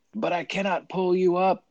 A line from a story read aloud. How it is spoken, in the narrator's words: the man cried